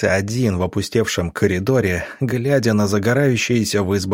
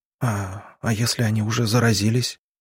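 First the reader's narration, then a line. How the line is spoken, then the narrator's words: Quiet question. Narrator (Russian): тихо спросила она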